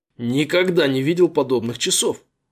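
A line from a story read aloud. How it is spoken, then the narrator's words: Admiring exclamation. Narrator (Russian): восхищенно воскликнул Джо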